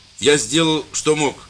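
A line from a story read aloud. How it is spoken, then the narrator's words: Loud. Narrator (Russian): сказал священник громко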